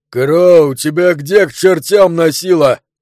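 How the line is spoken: Angry yell. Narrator (Russian): заорал помощник шерифа

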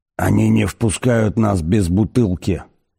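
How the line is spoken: Hissing. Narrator (Russian): прошипел он

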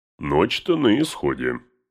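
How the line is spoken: Muttering. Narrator (Russian): пробормотал Гимли

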